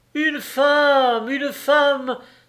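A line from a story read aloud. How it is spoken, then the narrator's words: Exclaimed. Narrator (French): s'écria-t-il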